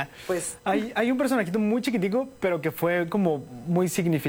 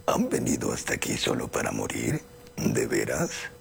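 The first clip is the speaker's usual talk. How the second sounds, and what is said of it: Woman performing a man's voice. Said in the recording (Spanish): “Yo no tengo voz de hombre, pero caracterizaba así... Esa es voz de hombre.”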